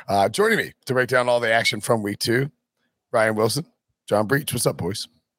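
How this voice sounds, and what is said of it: Hoarse, strained voice. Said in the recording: “I lost my voice... loudly talking too much”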